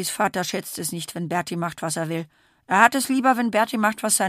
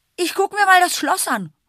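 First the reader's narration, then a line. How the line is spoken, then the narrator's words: Calling. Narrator (German): ruft Berti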